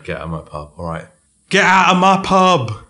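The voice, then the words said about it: Bellowed put-on accent. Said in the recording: “do the accent ... I need to bellow this out ... It needs a little bit of work”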